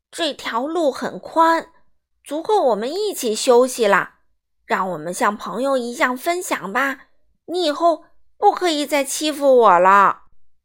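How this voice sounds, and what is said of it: Loud, courageous lion character voice. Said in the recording (Chinese): “狮子深呼吸一下，鼓起勇气，大声对河马说”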